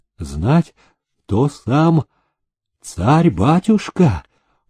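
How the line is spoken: Joyful. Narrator (Russian): промолвил он радостно

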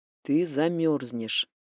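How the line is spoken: Quiet. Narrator (Russian): тихо произнес

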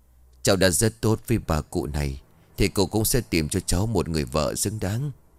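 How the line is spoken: Sorrowful ghostly voice on wind. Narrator (Vietnamese): cái vong thở dài nghe buồn não ruột, nói lên trong tiếng gió

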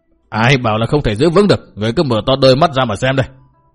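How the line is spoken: Defiant shout. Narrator (Vietnamese): Bao Đà Thắng quát

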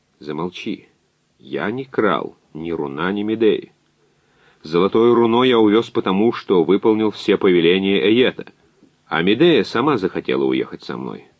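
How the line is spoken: Calm. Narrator (Russian): Язон спокойно сказал

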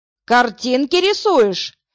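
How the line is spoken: Sudden bark. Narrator (Russian): рявкнул вдруг Потапов

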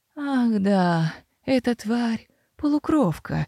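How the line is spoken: Breathed out. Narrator (Russian): выдохнул

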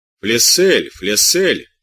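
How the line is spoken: Muffled grumble. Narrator (Russian): проворчал за ним глухой голос

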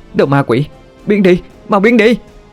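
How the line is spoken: Screaming. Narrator (Vietnamese): Thoại Liên hét lên

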